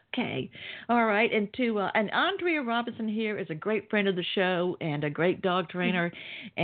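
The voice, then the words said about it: Southern American accent. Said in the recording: “I can tell you traveled and been in the South because you didn't have any trouble with my accent ... You didn't need subtitles.”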